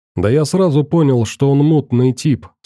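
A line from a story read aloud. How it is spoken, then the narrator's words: Plain. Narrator (Russian): сказал комендант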